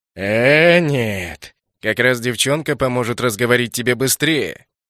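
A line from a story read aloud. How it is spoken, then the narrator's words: Scoffing grunt. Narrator (Russian): хмыкнул главарь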